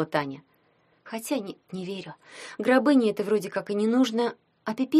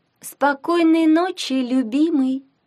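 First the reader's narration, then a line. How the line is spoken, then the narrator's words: Tender cooing. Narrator (Russian): проворковала нежно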